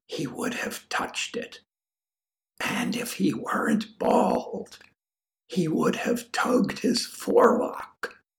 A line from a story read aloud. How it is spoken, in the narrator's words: Matthew whispers